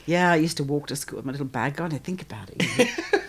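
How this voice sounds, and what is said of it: English accent. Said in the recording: “you've got that English accent”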